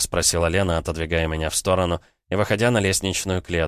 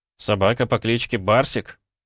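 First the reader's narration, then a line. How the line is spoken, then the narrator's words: Snort. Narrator (Russian): Я фыркнул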